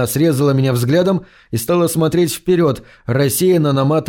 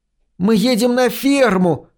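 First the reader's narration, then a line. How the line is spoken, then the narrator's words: Shrill scream in ear. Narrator (Russian): пронзительно завопила Вики мне в ухо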